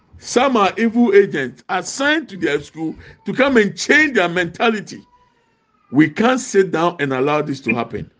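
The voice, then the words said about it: Raised, loud passionate voice. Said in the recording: “my voice is high”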